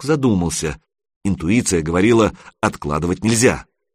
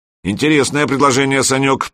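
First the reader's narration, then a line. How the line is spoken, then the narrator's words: Deep bass voice. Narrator (Russian): пробасил майор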